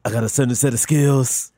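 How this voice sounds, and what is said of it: Imitates another person's voice. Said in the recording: “your Liam Neeson impression”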